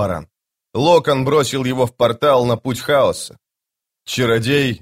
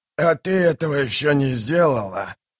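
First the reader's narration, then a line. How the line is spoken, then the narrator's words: Hissing. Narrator (Russian): прошипел Ягут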